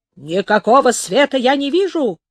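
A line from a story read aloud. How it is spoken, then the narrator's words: Roared. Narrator (Russian): проревел шкипер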